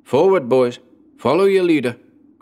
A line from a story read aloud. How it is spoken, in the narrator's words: cried Berg